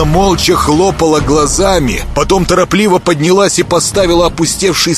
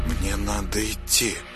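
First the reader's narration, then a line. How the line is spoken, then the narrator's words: Muttered. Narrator (Russian): пробормотала она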